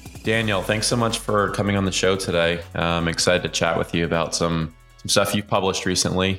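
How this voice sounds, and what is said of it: Voice not fully recovered. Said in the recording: “As you and probably our audience can tell, my voice hasn't fully recovered yet.”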